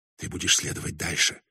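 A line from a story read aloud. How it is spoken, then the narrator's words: Barely audible. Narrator (Russian): еле слышно произнесла она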